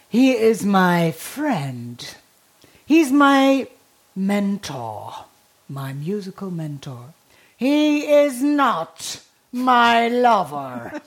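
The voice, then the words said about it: Deep voice, English with German accent. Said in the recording (German): “Sie hatte so eine tiefe Stimme ... Mit so einem deutschen Akzent, herrlich.”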